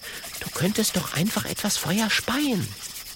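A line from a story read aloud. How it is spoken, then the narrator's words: Porcupine whispering. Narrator (German): flüstert das Stachelschwein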